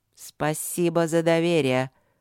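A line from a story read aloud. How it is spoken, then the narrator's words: Angry grumble. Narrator (Russian): буркнул Трод зло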